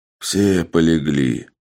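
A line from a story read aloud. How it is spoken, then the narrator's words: Sighing speech. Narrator (Russian): вздохнув, сказал Соломон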